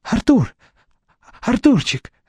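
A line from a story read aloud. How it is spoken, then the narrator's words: Forced out, strained. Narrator (Russian): выдавил Викентий Павлович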